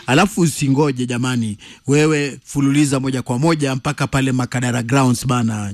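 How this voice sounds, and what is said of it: Swahili spoken with English accent. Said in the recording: “accent ya Kiswahili ya Kizungu”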